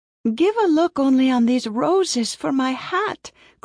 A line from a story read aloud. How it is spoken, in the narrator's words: cried Masha